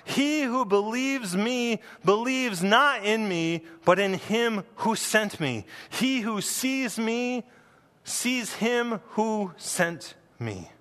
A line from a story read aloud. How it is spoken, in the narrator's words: He cried out and he said